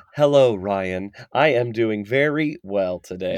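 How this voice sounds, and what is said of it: Robotic computer voice. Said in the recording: “do the computer voice”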